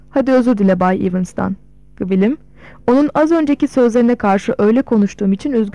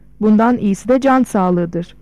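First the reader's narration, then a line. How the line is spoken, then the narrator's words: Plain. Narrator (Turkish): dedi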